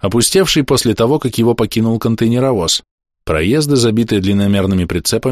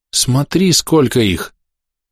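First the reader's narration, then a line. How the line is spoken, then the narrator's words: Visibly frightened. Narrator (Russian): заметно испуганно сказала Дрика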